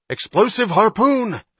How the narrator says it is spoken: Hatch cried

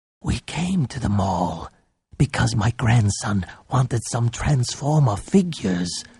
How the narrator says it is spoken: Popsy whispered

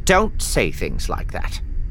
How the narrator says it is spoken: Vorlip said sternly

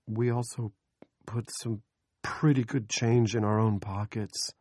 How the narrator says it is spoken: Andy said timidly

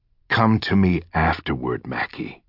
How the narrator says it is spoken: he whispered

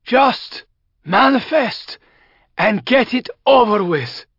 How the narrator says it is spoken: he cried aloud

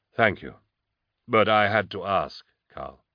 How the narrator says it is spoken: I said

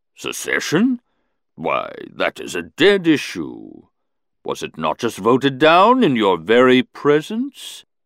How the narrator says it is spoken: he boomed softly

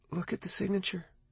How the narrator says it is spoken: she said, quietly

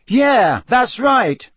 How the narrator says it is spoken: said Harry, raising his voice slightly

